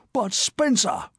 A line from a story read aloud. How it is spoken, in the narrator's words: he almost howled